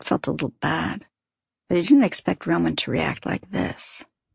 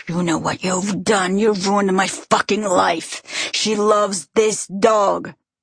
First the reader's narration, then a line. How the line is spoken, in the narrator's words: screaming in Polish